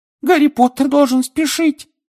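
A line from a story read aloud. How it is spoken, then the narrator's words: Squeaky. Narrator (Russian): пискнул Добби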